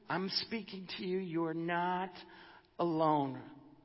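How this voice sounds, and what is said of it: Whispering. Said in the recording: “Listen to my whisper. I'm whispering to you.”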